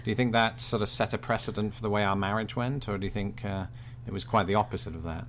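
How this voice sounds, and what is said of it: British accent. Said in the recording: “bearing in mind that I am British ... my accent ... everyone had a British accent”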